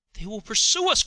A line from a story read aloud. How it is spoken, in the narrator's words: cried the impatient Henry